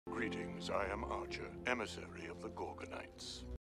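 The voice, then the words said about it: Very soft-spoken distinct character voice. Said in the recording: “doing the voice. ... he has this very, very soft spoke. I like it. Because it's just very distinct.”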